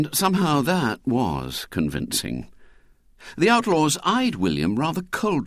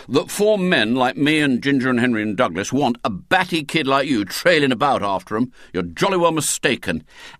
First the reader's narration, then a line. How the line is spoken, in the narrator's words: said William sternly